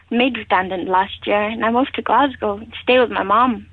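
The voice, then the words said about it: Regional accent, pleasant voice. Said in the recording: “I do love your accent ... You've got the most amazing voice.”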